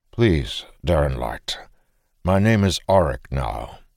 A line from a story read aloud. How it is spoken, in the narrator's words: the bringer reminded him quietly